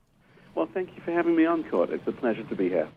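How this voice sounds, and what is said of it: British accent. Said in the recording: “as you hear from his accent, he's British”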